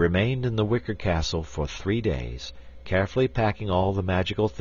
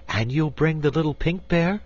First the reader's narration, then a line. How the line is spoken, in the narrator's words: asked Dorothy eagerly